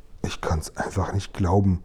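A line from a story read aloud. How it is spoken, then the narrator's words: Murmured. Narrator (German): murmelte die Königin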